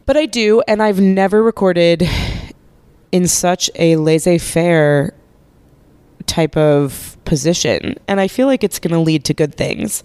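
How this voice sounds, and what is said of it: Congested voice with a cold. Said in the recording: “As you can probably hear in my voice, I have a cold”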